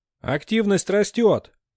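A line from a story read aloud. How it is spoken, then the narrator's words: Excited shout. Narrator (Russian): Невольно увлеченный азартом Альрике, крикнул Динг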